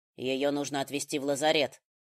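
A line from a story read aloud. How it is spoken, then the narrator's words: Stern. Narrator (Russian): строго сказал Риган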